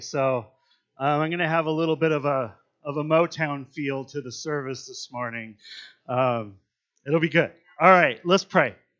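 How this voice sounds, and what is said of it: Slightly scratchy voice. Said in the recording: “I don't know if you can hear in my voice. I got a little bit of a scratchiness in here today”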